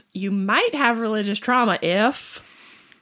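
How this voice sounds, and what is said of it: Attempted Jeff Foxworthy Southern accent. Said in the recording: “Thank um, you for doing the accent. ... I can't really do a Jeff Foxworthy, but that was my attempt.”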